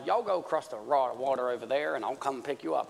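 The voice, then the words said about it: Southern American accent. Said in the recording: “this Jesus has an American accent, specifically a southern redneck American accent”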